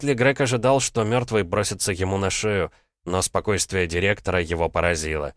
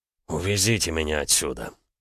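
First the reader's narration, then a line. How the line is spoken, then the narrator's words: Grumbling. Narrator (Russian): буркнул Кауфман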